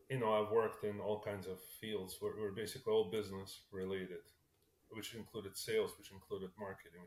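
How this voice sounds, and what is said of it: Slight Russian accent. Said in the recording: “you can probably tell, which I still carry a bit of an accent, but I was not born here. I was actually born in Russia. ... I'm still stuck with that accent”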